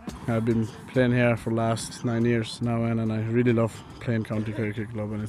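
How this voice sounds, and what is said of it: Marked Kerry Irish accent. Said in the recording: “Speaking with a marked Kerry accent”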